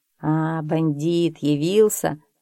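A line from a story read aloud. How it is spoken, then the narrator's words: Affectionate. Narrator (Russian): ласково сказал он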